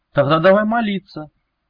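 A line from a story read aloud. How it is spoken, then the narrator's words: Fervent exclamation. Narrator (Russian): с жаром воскликнул Велес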